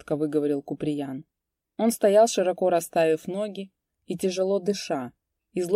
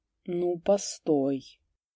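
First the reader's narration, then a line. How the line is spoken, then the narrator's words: Muttering. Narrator (Russian): пробормотал он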